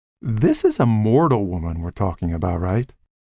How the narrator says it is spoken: He laughed

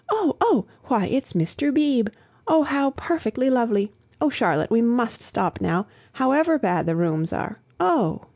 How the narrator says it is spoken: Lucy, who had not yet acquired decency, exclaiming

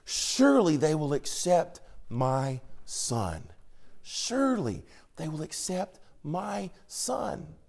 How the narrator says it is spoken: you could almost hear Jacob whisper under his voice

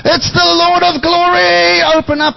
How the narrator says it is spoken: The whole company with him shouts out

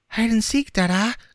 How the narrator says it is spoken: cried Gip

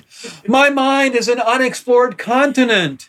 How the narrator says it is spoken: Jerry called out

